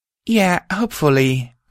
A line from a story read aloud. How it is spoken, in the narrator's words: I said, sighing